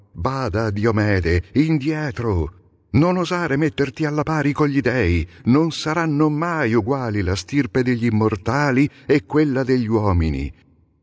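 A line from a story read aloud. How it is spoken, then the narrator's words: God shouting. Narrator (Italian): Apollo gridò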